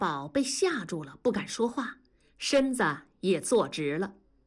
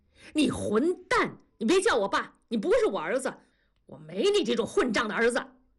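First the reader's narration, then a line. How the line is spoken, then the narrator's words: Angry roar. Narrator (Chinese): 同志怒吼一声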